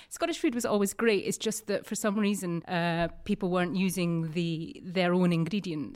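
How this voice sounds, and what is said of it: Distinct Scottish accent. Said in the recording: “you've got this distinct Scottish accent. You're from Edinburgh.”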